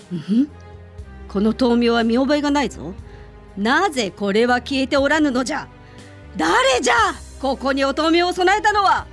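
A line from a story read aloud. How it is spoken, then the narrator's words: Shouting angrily. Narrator (Japanese): と怒鳴りました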